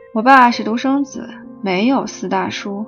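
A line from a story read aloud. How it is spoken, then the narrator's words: Flat, indifferent. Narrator (Chinese): 他 淡淡的说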